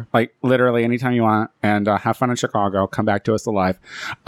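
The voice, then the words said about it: Speaks with a noticeable accent. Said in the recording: “It's my accent.”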